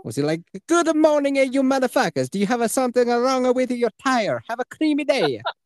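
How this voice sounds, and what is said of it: Put-on Floridian accent. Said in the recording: “they talk like this ... A perfect Floridian accent, right? ... perfect Floridian accent”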